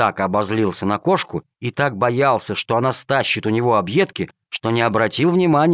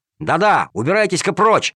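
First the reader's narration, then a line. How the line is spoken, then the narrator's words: Angry boy's shout. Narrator (Russian): сердито прикрикнул мальчишка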